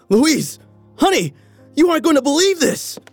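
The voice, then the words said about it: Excited yelling. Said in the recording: “Why are you yelling?”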